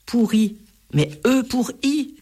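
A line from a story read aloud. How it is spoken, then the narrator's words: Cried out. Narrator (French): s'écrie Enzo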